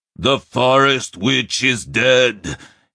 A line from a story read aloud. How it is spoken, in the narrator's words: he howled